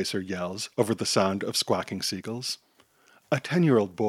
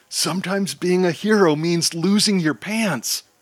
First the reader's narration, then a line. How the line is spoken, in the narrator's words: Rainbow Chaser yells